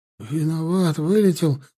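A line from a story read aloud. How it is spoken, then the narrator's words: Timid babble. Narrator (Russian): пролепетал тот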